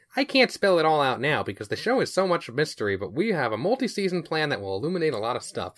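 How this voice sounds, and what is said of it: Put-on dorky character voice. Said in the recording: “doing that voice? ... differentiate him from the Ridley Scott voice I'm doing. And I assume he's some kind of dork. ... you're doing your dork voice.”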